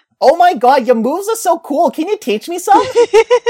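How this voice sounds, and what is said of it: Cartoon Harley Quinn accent, Minnesota-ish. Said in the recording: “Every time we try and do a Harley Quinn accent, we slowly get closer and closer to Minnesota.”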